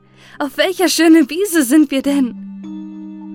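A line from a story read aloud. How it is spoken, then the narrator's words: Calling out. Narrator (German): rief sie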